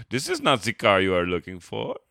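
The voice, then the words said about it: Weird Spanish-German mixed accent. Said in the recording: “That was like a weird... Spanish meets German accent”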